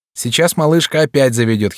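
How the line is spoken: Giggling. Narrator (Russian): хихикнула Тонка

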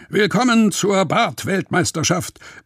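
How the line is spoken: Host bellowing into microphone. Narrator (German): brüllt der Moderator ins Mikrofon

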